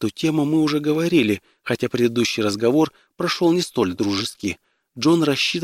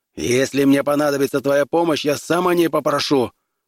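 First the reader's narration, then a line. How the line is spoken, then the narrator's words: Angry bark. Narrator (Russian): рявкнул он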